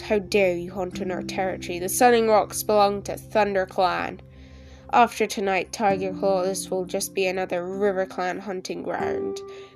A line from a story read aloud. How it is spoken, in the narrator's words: the bracken-colored tom spat back